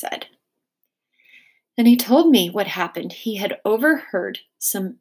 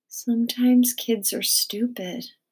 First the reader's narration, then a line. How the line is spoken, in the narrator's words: I said softly